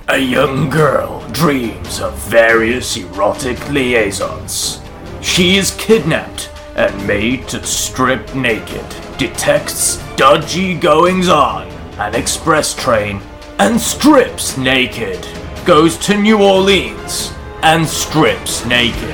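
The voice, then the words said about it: Dramatic movie trailer narrator voice. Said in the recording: “Can you read it as a trailer voice? ... Oh, yeah, I can do that.”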